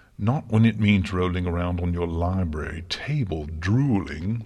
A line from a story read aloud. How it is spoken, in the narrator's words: Luna snapped